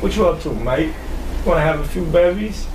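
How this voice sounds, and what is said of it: Fairly good put-on British accent. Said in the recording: “your British accent ... That's pretty good, actually”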